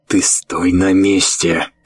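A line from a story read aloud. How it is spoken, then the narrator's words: Hissed. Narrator (Russian): прошипел Рью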